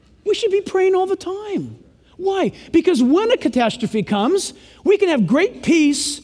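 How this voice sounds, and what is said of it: Usual voice. Nothing is said of it.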